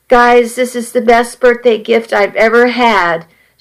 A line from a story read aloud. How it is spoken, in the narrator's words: she said, her voice choked